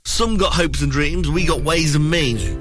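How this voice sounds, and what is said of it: Amateur rap-style delivery. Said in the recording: “my best rap impression ... I shouldn't try that”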